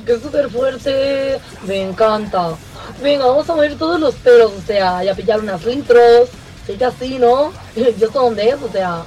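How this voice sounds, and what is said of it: Exaggerated posh Spanish pijo accent. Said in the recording (Spanish): “ese ridículo acento pijo”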